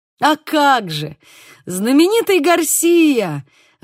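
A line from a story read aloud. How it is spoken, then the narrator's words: Warm exclamation. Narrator (Russian): воскликнул Диего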